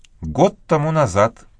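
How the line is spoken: Calm reply. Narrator (Russian): спокойно ответила Мэгги

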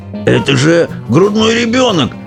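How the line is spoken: Old man shouting. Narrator (Russian): кричал дедушка Джо

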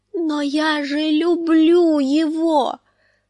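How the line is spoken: Moaned, confused and frightened. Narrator (Russian): простонала Санса в смятении и испуге

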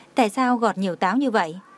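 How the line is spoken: Smiling. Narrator (Vietnamese): Đường Khả Hinh mỉm cười nói

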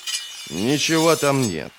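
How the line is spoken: Grumble. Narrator (Russian): проворчал Бояс

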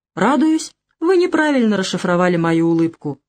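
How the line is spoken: Very calm reply. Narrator (Russian): совершенно спокойно отозвался

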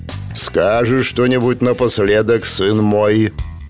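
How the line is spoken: Deep bass voice. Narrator (Russian): пробасил бородатый и пузатый дядька

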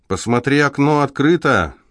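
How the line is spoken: Shout. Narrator (Russian): крикнул Рон Пуласки

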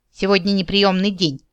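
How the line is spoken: Grumbling mutter. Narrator (Russian): буркнула Кикимора

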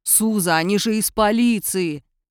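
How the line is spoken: Deep bass reply. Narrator (Russian): пробасил в ответ Николая

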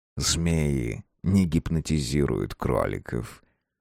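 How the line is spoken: Soft velvety voice. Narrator (Russian): мягко произнес бархатный бисквитный голос

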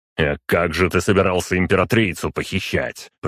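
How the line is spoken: Impatient growl. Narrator (Russian): прорычал я, так как сейчас вообще не время было для разговоров

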